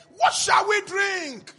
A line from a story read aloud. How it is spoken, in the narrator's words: Moses cried out to the Lord